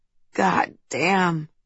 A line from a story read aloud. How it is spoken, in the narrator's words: his breathing choked with emotion, saying